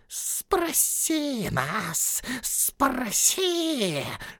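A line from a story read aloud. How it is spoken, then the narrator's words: Hissing. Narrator (Russian): шипел Голлум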